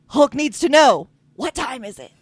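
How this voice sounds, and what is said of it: Terrible Hulk character voice. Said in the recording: “That was a terrible Hulk impression.”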